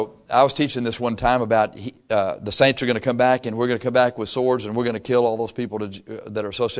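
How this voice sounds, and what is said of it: Usual voice. Nothing is said of it.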